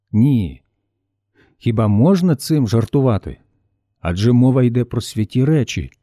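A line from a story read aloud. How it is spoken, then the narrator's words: Calm reply. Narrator (Ukrainian): спокійно відповів Богдан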